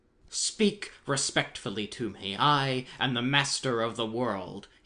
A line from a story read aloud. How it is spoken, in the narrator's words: he roared in an angry voice